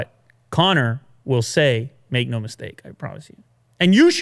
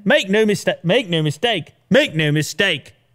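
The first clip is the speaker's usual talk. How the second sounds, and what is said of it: Conor McGregor impression, Irish accent sounding English. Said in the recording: “Conor McGregor ... Irish accent? ... What is that, English? That's too English. ... Mine always goes English, you know? ... There's no Irish accent in here for whatever reason.”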